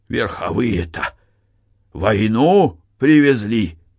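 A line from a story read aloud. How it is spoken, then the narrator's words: Hoarse shout. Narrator (Russian): хрипло крикнул он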